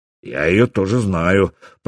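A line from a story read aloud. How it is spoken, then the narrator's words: Deep bass voice. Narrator (Russian): пробасил Стюрмир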